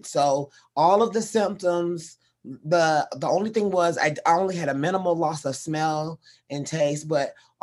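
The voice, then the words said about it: Lower, husky voice from illness. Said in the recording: “my voice may be a little more sultry than usual ... my voice is a little more sultry than usual because I had what I thought was COVID”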